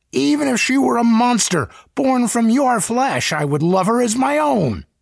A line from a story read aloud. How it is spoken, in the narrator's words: he cried